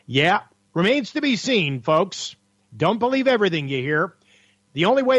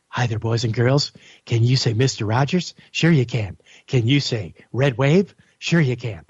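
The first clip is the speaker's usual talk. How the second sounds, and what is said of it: Mr. Rogers impression. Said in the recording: “let's do a little Mr. Rogers impersonation here.”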